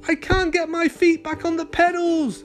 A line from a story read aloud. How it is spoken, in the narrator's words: Alex cried